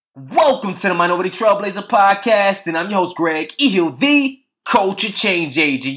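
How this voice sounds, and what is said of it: Excited, pumped-up energetic delivery. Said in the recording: “I am excited, pumped up. Like seriously, I'm on 10 right now, as you probably can hear it in my voice”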